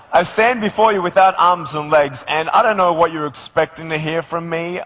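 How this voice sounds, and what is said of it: Australian accent. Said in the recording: “I'm still keeping my accent as much as I can... So do I still sound Australian to you? Oh, yes.”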